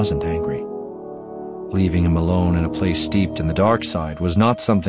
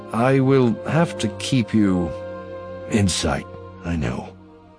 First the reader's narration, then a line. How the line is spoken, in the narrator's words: Voss said